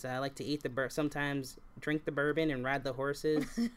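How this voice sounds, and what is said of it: Put-on Kentucky accent. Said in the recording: “American regional accents ... I'm from Kentucky ... that's not Kentucky”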